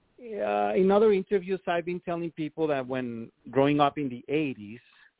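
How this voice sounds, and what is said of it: Mexican-accented English. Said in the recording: “I have an accent. I'm from Mexico.”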